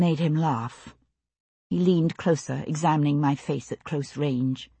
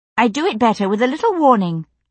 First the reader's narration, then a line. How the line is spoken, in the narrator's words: I snapped